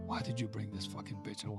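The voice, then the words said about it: Whispering. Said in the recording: “I'm whispering in your ear.”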